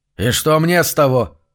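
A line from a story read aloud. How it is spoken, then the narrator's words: Growled. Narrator (Russian): прорычал Зафиил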